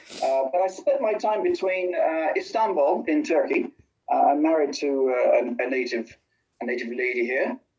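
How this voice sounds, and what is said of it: British accent. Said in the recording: “you can probably detect the British accent going on”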